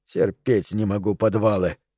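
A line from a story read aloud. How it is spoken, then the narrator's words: Muttering. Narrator (Russian): пробормотал он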